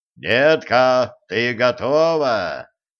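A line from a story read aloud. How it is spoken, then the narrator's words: Booming voice filling house. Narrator (Russian): прогремел на весь дом голос Кощея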